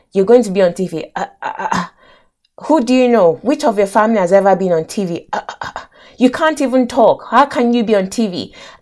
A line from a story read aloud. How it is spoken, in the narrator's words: he was stammering